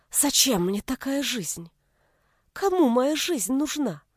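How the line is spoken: Fervent tearful whisper. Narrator (Russian): Горячим шепотом сквозь слезы спросила Нина

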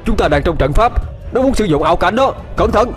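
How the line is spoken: Loud shout. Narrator (Vietnamese): Ông ta hét lớn

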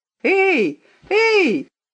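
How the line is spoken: Shout. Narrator (Russian): Он никогда раньше не кричал

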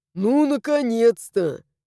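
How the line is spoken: Snorted. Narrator (Russian): фыркнул Луиш

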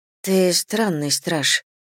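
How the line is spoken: Whisper. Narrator (Russian): прошептала я

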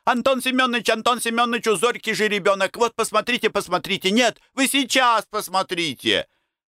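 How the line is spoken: Excited boys yelling. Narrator (Russian): возбужденные пацаны вопили

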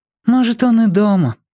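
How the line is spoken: Sighing. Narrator (Russian): вздохнула Римка

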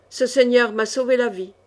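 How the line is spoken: Grumbling. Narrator (French): grognait-il

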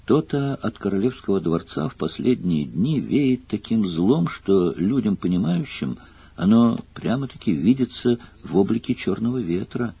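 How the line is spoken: Thoughtful old woman. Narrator (Russian): Задумчиво сказала старуха

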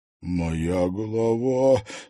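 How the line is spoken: Weak moan. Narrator (Russian): слабо простонал Влад Пивоваров

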